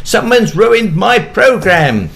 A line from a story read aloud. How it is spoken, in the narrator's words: shouted